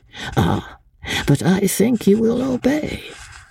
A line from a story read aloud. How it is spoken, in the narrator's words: he added, with that funny, dry chuckle of his